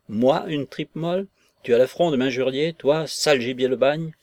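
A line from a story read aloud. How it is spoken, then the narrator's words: Red-haired woman exclaiming. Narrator (French): s'écria la femme rousse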